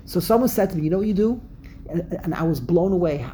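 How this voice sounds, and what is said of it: Brooklyn accent. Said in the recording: “your Brooklyn accent is the pits ... the Brooklyn accent”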